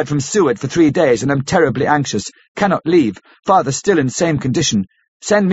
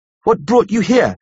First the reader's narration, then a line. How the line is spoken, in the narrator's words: cried